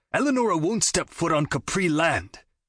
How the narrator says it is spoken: he shouted

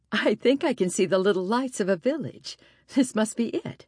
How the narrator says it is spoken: said, laughing

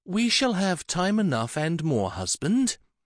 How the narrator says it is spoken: the tall and imperious Isabella said calmly

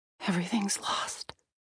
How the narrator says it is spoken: Anne said, her voice barely a whisper

